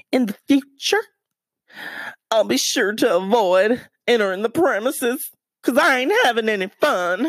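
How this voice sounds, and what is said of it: Put-on Southern accent. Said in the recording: “I should have said it in a southern accent”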